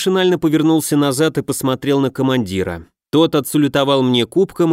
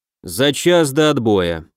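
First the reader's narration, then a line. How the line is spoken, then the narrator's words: Gloomy. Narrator (Russian): также мрачно продолжил Герман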